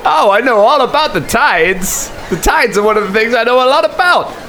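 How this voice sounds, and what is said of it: Loud ship captain character voice. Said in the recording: “I need to do this voice further away from the mic. I've seen Colin panic and turn to the controls every time I do the captain.”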